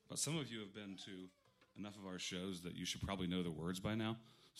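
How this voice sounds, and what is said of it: Strained, partly lost voice. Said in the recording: “I lost my voice yesterday”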